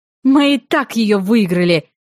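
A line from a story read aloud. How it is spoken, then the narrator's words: Barking. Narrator (Russian): рявкнула я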